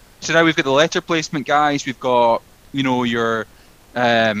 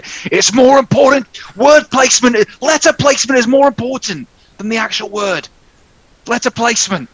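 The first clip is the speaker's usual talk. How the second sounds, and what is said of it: Exaggerated put-on accent. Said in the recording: “I don't know why I'm doing that accent.”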